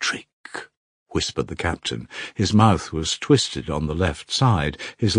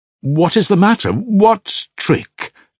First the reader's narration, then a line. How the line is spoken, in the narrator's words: Alyosha cried, now thoroughly alarmed